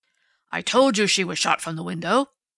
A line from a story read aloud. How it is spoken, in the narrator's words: Strawn reminded Dundee triumphantly